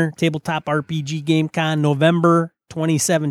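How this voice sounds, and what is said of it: Usual voice. Nothing is said of it.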